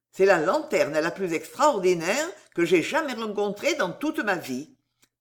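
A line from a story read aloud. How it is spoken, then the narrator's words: Exclaiming. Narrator (French): s'écria M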